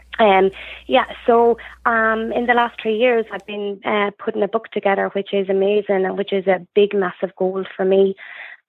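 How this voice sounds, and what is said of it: Voice with a slight cold. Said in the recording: “I have a little bit of a cold”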